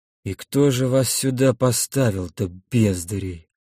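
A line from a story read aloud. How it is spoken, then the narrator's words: Disgusted mutter. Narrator (Russian): пробормотал Олег с отвращением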